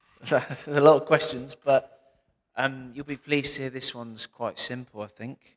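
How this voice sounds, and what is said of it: Usual voice. Nothing is said of it.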